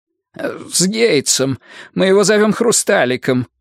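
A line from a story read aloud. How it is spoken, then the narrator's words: Grunting chuckle. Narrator (Russian): Пелфрей хмыкнул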